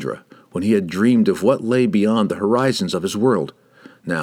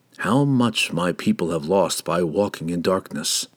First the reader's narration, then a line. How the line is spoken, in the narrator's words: Driz whispered into the night